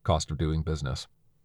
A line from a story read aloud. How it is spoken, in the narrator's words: said flatly